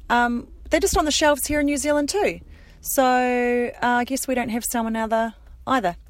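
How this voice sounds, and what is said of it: New Zealand accent. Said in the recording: “Excuse my Kiwi accent.”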